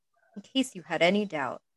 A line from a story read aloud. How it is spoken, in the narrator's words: said quietly